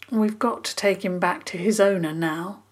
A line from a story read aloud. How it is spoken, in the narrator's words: Dig said gently